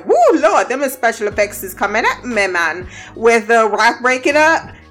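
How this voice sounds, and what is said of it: Put-on Jamaican accent. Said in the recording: “got a Jamaican accent randomly”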